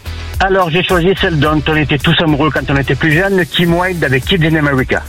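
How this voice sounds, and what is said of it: Southern French accent. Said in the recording (French): “Avec l'accent méridional”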